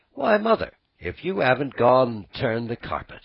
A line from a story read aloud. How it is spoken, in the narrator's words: she exclaimed, with something in her voice that spoke awe and admiration